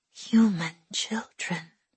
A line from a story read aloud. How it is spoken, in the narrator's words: her mamma whispered, as if even saying the words out loud might bring the Padawan's guards rushing into the room